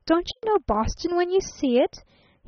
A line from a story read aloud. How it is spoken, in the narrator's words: he cried a trifle testily